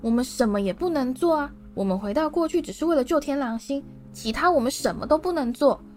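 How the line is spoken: Sharp, stern. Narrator (Chinese): 妙丽厉声说

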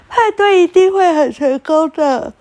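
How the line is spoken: Loud. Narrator (Chinese): 拉拉大声地说

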